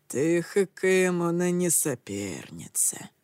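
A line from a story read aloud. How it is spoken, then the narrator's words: Muffled, hollow voice. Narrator (Russian): глухо произнес он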